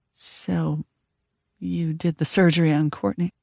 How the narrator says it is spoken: I said quietly

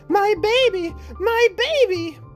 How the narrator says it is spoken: The nurse, screaming

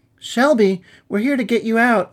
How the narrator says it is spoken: yelled

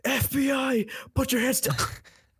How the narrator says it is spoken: I just hear him yell

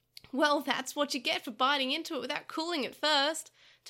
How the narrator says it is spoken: Taichi said, laughing at Takeru's eagerness

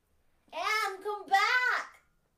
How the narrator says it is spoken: shrieked the latter as soon as she found her voice

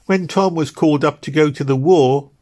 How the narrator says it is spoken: said the young woman bitterly

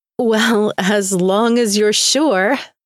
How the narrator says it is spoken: I laughed

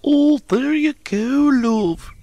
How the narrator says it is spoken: cooed Emma

